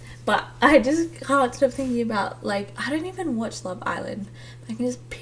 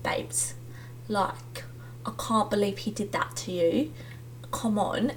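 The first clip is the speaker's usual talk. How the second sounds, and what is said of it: Bad put-on English accent. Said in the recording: “speaking in an English accent, just kidding, that was a really bad accent”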